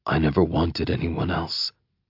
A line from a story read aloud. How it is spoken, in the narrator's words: I murmur